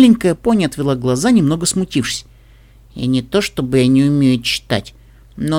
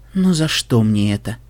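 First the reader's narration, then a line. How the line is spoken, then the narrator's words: Weary sigh. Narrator (Russian): Вздохнула в очередной раз Болейд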